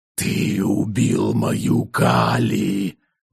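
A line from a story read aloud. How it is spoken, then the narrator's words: Hissed like a snake. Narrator (Russian): зашипел Оррис, точно змеинок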